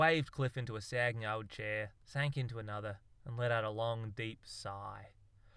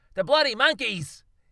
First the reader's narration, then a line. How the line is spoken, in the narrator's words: He yelled